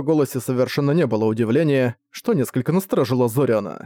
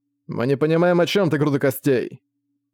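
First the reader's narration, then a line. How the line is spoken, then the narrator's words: Growled. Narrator (Russian): прорычал Зак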